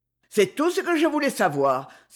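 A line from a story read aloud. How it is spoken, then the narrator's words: Exclaimed. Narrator (French): s'écria Rouletabille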